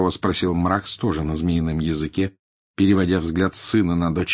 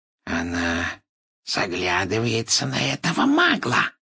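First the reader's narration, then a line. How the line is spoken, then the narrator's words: Spiteful hiss. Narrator (Russian): прошипел Морфин, злобно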